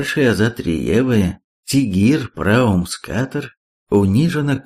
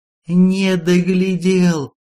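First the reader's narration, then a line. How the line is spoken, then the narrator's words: Sobbing peasant. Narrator (Russian): всхлипнул крестьянин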